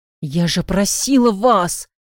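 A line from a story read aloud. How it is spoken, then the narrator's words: Hissing. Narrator (Russian): Скорее прошипела, чем сказала Любовь Сергеевна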